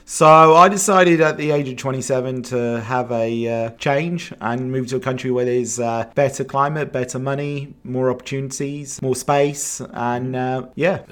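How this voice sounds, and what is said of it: Mixed English and Australian accent. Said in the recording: “you got both an English and Australian accent ... Yeah, I'm pretty mixed”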